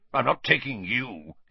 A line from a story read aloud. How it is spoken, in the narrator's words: he snarled